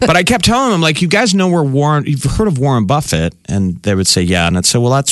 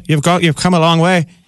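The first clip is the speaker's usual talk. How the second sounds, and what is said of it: Bad put-on Irish accent. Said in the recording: “I'm by the way doing the worst Irish accent.”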